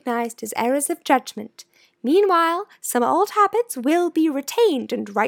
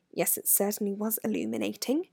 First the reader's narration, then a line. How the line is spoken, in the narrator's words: said Hermione in a low voice